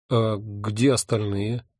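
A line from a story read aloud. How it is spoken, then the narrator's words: Bewildered question. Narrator (Russian): растерянно спросил я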